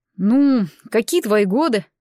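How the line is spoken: Encouraging snort. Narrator (Russian): ободряюще хмыкнул Таран

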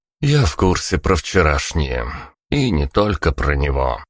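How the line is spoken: Sighing. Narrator (Russian): вздохнул ГБшник

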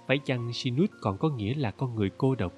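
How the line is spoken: Gentle thoughtful question. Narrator (Vietnamese): Thiếu nữ nhíu mày như suy nghĩ rồi nhẹ nhàng hỏi

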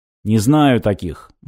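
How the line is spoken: Gloomy. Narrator (Russian): мрачно сообщил он

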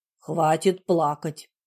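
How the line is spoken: Stern command. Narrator (Russian): строго велел я

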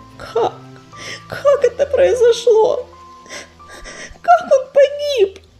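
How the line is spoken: Trembling voice. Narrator (Russian): дрожащим голосом спросила Медуница

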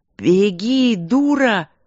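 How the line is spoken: Startlingly loud yell. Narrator (Russian): заорал он так, что водила дернулся

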